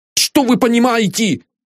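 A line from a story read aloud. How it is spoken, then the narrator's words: Shouted. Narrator (Russian): крикнул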